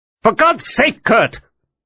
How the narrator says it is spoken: Müller exclaimed

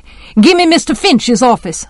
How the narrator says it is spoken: shouted

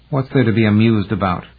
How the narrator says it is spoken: Cronberry asked coldly

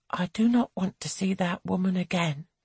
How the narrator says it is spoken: she turns to her husband and murmurs

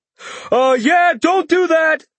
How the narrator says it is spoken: Patrick shouted

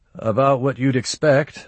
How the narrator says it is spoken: I replied

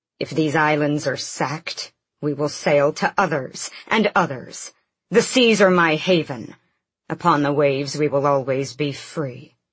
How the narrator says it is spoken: Rolf snapped

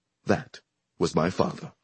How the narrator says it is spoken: the man said earnestly

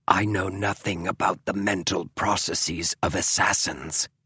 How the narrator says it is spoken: hissed James

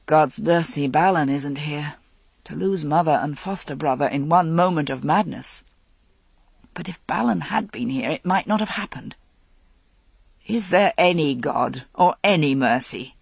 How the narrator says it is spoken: He muttered

